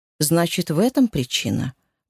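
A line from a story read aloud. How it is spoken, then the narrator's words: Leading, probing tone. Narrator (Russian): уточнил Роман наводящим тоном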